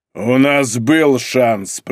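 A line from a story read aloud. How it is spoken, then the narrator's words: Angry. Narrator (Russian): произнес он зло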